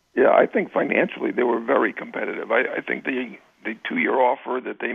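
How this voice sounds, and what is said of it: Hoarse, raspy voice. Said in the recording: “Sorry I have a little bit of laryngitis”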